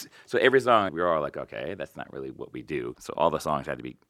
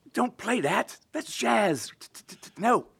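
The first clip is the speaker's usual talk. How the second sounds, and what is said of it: Yelling in a very thick accent. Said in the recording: “He would yell at us ... In a very thick accent.”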